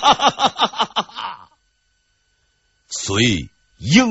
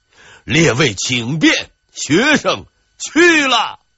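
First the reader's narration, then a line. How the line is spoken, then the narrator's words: Loud laughter. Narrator (Chinese): 严佩玮大笑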